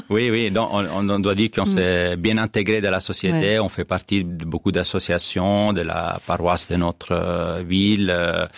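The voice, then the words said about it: Slight foreign accent in French. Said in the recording (French): “Vous avez un petit accent quand même.”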